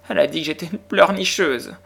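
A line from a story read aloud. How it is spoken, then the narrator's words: Whimpered. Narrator (French): gémit Lottie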